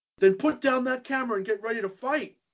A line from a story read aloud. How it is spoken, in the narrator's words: he yells